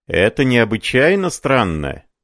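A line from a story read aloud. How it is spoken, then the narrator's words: Shout. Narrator (Russian): закричал переписчик-медиум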